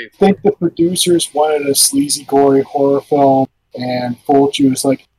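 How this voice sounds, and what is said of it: Usual voice. Nothing is said of it.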